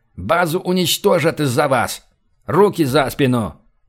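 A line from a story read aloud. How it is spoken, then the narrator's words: Barked shout. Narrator (Russian): гаркнул Робсон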